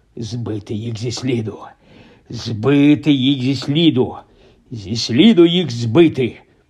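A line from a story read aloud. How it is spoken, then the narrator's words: Muttered. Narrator (Ukrainian): бурмотів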